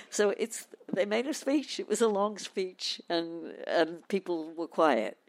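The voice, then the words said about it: British accent. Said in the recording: “This is a great British accent. I'm a Canadian and I love this British accent.”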